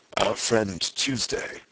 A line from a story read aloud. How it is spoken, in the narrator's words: said the president, in a deep voice, at once of quietude and volume